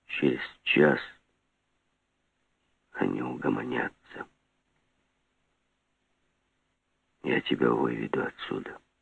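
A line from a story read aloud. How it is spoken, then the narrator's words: Quiet but very clear. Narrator (Russian): так же тихо, но очень внятно сказал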